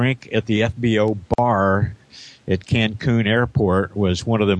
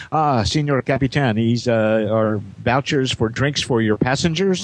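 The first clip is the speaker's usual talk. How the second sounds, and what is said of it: Bad put-on Mexican accent. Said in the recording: “the world's worst Mexican accent”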